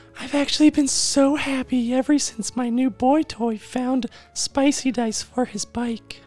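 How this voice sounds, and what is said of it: Silly put-on female voice. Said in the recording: “do the silliest female voice ... will be Barb”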